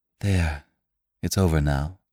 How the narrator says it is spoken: she said

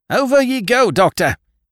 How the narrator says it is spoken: he yelled

